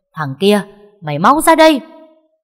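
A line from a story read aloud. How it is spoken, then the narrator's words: Furious woman yelling. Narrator (Vietnamese): Bà ta tức đến đỏ cả mặt mà gào lên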